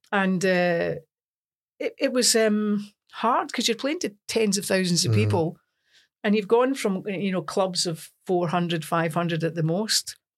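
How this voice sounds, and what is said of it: Broad Scottish accent. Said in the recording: “a broad Scots accent”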